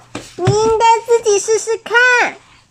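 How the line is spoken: Startled cry. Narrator (Chinese): 小鸟受到惊吓 惊叫着说

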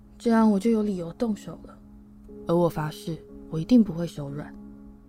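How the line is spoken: Soft. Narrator (Chinese): 他轻声说

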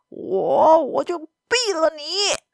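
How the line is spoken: Trembling with joy and worry. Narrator (Chinese): 快乐和担心令这位副局长先生的声音有些发抖

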